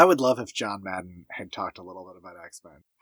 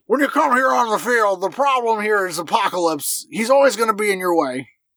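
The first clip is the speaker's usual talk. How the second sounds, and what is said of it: Imitates a sports commentator's voice. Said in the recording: “Is that a good John Madden? ... that sounded really good ... probably a very good impersonation.”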